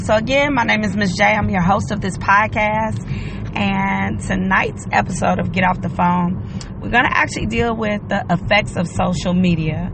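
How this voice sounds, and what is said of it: Scratchy voice. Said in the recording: “my voice is a little scratchy”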